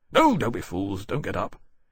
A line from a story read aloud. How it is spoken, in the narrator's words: he said impatiently